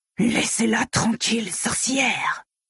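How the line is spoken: Hissed. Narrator (French): siffla-t-il

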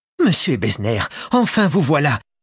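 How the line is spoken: Exclaimed. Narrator (French): s'écria-t-elle

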